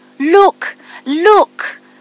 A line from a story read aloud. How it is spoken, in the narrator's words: cried the rose tree